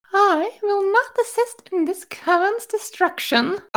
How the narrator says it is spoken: Alice said sweetly

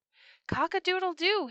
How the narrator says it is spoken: he cried

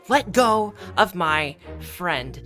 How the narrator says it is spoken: Remy angry, and he shouts

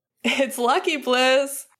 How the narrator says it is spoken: Finn laughed

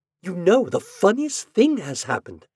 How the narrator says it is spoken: she whispered excitedly

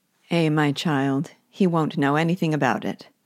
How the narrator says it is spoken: said Silas

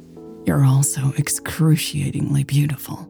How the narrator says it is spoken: admitted softly

